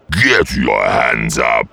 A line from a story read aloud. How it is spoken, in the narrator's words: snarled